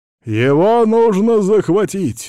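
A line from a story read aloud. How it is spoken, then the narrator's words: Shouting from behind. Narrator (Russian): закричал за спиной Владимира Ильича Артемий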